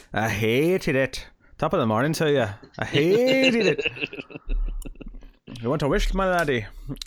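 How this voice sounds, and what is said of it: Exaggerated leprechaun-style Irish accent. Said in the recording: “you sound like you're doing your leprechaun voice”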